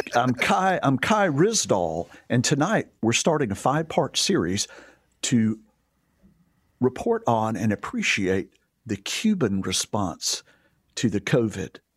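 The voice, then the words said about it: Imitates NPR radio announcer voice. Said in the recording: “That was pretty good NPR voice ... NPR voice is another thing that drives me absolutely insane ... That whole style”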